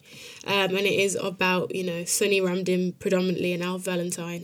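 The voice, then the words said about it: Strong British accent. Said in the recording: “this very strong British accent that I possess. Not at all in the Calypsonian Trinidad way”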